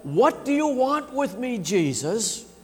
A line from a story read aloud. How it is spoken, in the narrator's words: shouts out